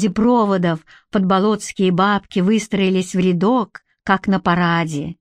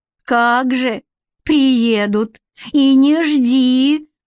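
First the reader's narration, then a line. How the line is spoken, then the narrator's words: Drawled in chorus. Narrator (Russian): Хором протянули сестры Кулик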